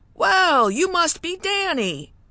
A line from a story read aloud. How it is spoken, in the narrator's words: he said with a larger-than-life laugh